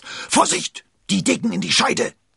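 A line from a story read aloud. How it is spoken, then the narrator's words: Hissed warning. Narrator (German): zischte Porthos warnend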